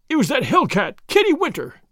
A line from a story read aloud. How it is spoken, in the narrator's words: he cried